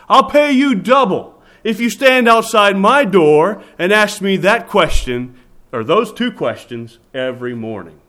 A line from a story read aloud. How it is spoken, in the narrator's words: Rabbi Akiva, with intense conviction, shouted back to the Roman sentry